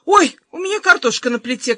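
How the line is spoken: Mother calling out. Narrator (Russian): крикнула мама

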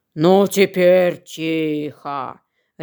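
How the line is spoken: Bear's gruff bark. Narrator (Russian): рявкнул медведь

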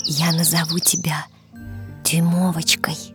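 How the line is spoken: Joyful whisper. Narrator (Russian): прошептала женщина, радуясь такому неожиданному подарку судьбы

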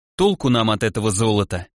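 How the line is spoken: Sigh. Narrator (Russian): вздохнул Олег

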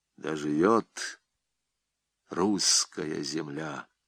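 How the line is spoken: Quiet. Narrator (Russian): проговорил он тихо

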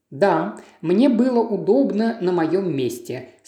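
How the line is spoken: Calm reply. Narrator (Russian): спокойно ответила

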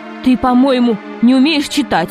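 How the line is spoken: Angry. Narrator (Russian): сердито произнес директор института

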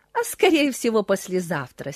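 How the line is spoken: Laughing reply. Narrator (Russian): смеялась она в ответ

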